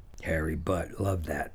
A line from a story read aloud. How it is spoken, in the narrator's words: murmured Gil